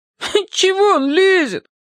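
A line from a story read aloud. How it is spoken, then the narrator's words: Whiny voice. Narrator (Russian): хнычущим голосом заявил бессовестный принц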